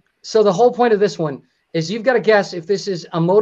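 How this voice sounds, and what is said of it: Usual voice. Nothing is said of it.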